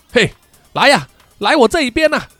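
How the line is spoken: Loud, forced calm. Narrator (Chinese): 温斯顿强作镇定啊，大声的对怪人叫嚣

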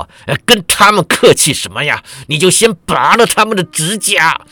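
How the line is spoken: Loud. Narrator (Chinese): 天恒子大声道

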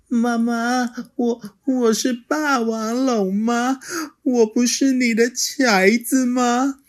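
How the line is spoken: Tearful sniffling child. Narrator (Chinese): 小梁流着眼泪，吸着鼻子说

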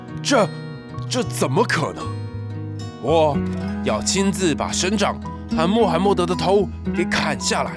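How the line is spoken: Shrieking, roaring. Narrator (Chinese): 他尖叫，他嘶吼

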